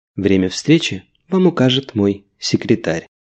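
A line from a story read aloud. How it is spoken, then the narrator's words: Soft reply. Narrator (Russian): мягко ответила королева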